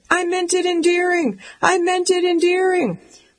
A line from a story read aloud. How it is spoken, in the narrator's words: shouting